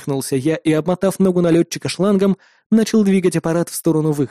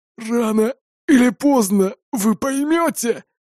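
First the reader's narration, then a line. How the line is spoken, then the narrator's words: Hoarse rasp. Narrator (Russian): прохрипел босс террористов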